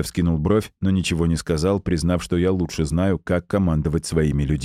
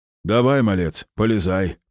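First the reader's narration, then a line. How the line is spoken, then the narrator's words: Kindly booming voice. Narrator (Russian): прогудел добрый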